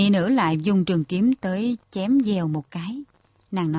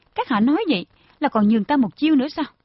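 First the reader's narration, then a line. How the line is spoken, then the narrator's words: Slightly angry woman asking. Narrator (Vietnamese): Quỳnh Y Nữ hơi lộ vẻ tức giận, nàng hỏi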